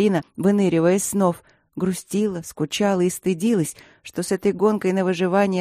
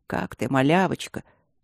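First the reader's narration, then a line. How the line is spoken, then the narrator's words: Deep low voice. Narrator (Russian): басил своим низким голосом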